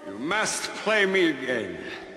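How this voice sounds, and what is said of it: Russian-German hybrid accent. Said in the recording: “I don't know what the fuck his accent is ... It's like some Russian-German hybrid or something.”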